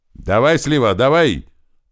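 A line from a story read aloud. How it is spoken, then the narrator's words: Yelling from below. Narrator (Russian): тут же заорал туман откуда-то из-под меня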